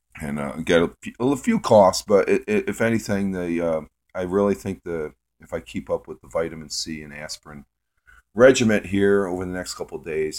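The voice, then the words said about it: Slightly hoarse voice. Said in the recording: “my throat is a little bit hoarse”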